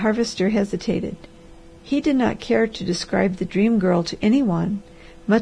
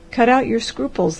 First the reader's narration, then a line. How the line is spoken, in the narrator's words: laughed the doctor